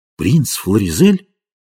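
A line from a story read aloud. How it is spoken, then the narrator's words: Astonished exclamation. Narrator (Russian): воскликнул пораженный Брэкенбери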